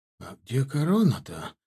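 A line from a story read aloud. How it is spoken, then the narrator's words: Quiet question. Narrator (Russian): тихонько спросил меня Элор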